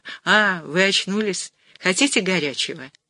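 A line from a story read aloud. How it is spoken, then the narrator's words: Young woman, gentle. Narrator (Russian): молоденькая грузинка-сестра и сказала ласково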